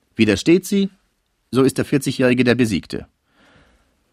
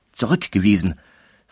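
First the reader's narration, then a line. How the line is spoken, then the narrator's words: Whispering. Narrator (German): flüsterte sie der Mutter ins Ohr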